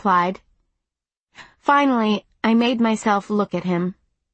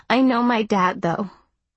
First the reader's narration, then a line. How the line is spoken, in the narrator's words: I said